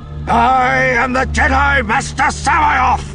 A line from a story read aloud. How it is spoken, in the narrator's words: He shouted, his voice ringing through the throne room and the roar of the rock falls